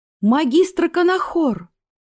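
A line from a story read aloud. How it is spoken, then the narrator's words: Surprised exclamation. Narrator (Russian): удивившись, в свою очередь, воскликнула она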